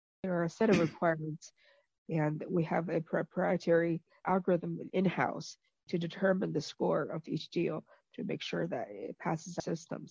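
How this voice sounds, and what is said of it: Sick-sounding voice. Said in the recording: “I'm a little sick, so I can tell from my voice”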